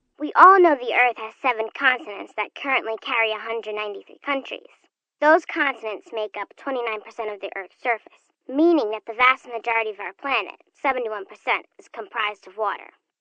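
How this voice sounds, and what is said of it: Young child's voice. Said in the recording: “You sound so young.”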